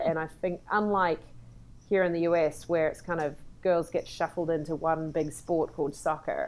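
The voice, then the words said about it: New Zealand accent. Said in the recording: “I come from New Zealand, you can tell by the accent”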